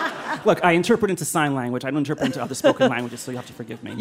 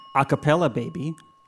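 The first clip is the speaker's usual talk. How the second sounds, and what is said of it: Terminator character voice impression. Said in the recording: “Give us your best Arnold impression ... that was a pretty good Terminator impression.”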